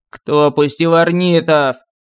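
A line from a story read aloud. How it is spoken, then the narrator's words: Barking roar. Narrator (Russian): рявкнув царь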